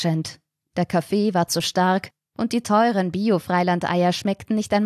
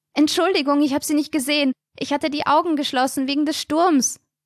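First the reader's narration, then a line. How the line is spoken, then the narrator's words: Shouting over a storm. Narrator (German): schrie durch die wirbelnden Schneeflocken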